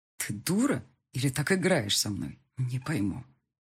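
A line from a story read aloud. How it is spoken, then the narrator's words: Plain question. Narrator (Russian): спросил он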